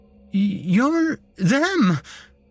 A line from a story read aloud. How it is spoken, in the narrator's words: I stammered, my mouth too dry to properly speak